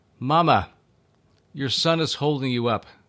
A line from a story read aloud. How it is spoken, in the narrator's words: Jesus called out to her